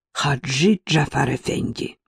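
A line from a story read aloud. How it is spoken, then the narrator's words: Young man muttering. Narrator (Russian): пробормотал молодой турок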